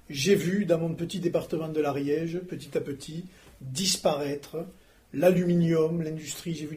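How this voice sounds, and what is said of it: Rural regional French accent. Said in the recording (French): “mon accent le prouve, je suis un rural”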